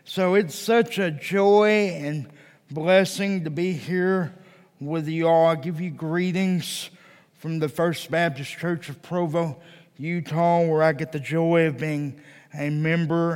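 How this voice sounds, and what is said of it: Texan accent. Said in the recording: “As you can tell from my accent, I'm not a native Utahan... I'm originally from Texas.”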